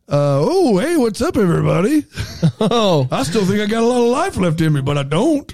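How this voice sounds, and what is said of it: Voices his own body as character. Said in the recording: “You want to see my impression? ... How's your body sound? ... The inside of your body is a stand-up comedian.”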